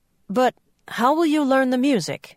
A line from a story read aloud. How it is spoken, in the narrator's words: spluttered